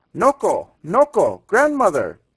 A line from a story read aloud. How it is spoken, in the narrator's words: he cried